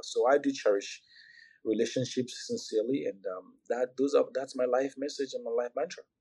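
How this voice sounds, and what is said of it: Speaks with a foreign accent. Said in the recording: “you have an accent”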